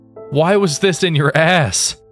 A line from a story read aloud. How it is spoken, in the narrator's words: the doctor cried out